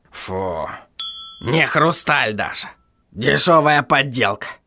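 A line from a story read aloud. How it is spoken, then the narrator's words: Scornful smirk. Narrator (Russian): хмыкнул он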